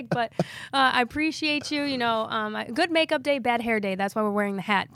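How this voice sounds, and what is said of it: Hoarse, strained voice from illness. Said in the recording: “losing my voice because I've been sick”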